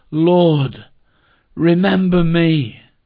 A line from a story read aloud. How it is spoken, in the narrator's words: personally pleading